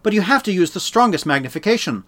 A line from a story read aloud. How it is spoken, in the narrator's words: Law said pleadingly to her father